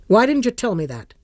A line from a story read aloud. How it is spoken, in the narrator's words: asked sharply